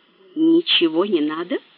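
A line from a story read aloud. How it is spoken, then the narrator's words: Calm repeated question. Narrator (Russian): спокойно переспросил Мейсон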